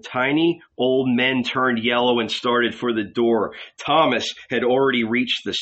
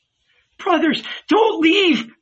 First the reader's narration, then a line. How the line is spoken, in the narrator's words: Mary cried